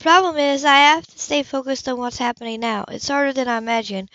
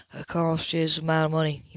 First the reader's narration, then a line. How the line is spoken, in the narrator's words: he murmured